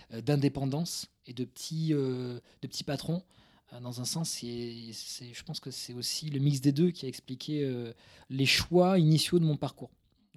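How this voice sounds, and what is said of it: Slight Toulouse French accent. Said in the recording (French): “banlieue toulousaine. je suis toulousain d'origine ... J'ai pas un gros accent, mais il y a des grosses résonances ... il y, a des relents comme ça. Hmm. Des petits jets de flammes comme ça. D'accent.”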